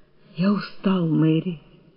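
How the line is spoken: Whispered. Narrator (Russian): прошептал

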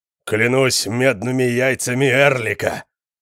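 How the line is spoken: Thundered. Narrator (Russian): прогремел Конан

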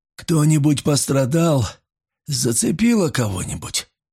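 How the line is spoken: Quiet hoarse voice over gunfire. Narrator (Russian): Тихий, хриплый голос капитана с трудом пробился сквозь грохот выстрелов

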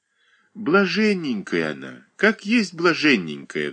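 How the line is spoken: Sighing beggar woman. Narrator (Russian): вздохнула нищая

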